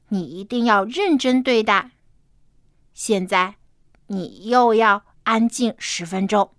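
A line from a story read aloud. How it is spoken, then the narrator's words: Stern, serious. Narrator (Chinese): 爸爸严肃的说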